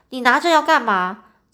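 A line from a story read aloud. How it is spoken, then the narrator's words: Loud scolding. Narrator (Chinese): 我 大声骂他说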